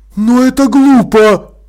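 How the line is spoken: Exclamation. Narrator (Russian): воскликнула Холтер

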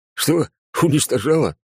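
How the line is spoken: Laughing. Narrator (Russian): Первый раз майор рассмеялся

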